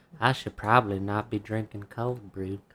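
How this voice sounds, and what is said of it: Slight put-on accent. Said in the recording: “You had like a little accent that came out... That was Countess Von Fifi returning from the grave.”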